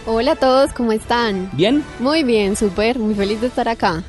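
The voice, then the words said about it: Manizales Colombian Spanish accent. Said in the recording (Spanish): “ese acento de dónde es? ... eso es de Manizales.”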